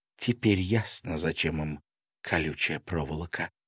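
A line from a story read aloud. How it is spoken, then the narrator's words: Whisper. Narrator (Russian): прошептала Маша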